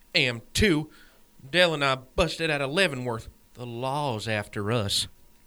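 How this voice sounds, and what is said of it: Tennessee Southern accent. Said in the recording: “I know the accent. Tennessee?”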